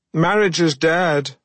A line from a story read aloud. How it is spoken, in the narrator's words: I shouted to the listeners of Mid-Morning Matters